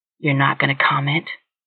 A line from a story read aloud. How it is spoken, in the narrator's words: David said the words so quietly, Katie found herself leaning forward, making sure she heard